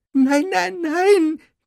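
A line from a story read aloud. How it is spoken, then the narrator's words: Squeaked. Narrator (German): quiekte Dobby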